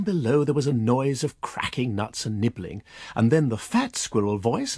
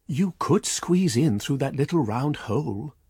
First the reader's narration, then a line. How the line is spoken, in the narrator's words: said Goody Tiptoes